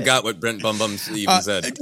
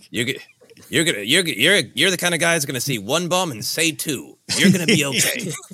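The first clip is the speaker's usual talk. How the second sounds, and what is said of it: New York accent, Columbo impression. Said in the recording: “picture Columbo going ... I could believe you were from New York ... an accent comes out every now and then”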